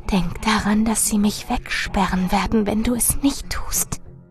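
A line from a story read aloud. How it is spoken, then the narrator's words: Urgent whisper. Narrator (German): Marilyn flüsterte eindringlich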